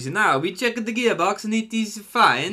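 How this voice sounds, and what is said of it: Poor put-on Italian accent. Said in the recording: “my pathetic attempt at an Italian accent”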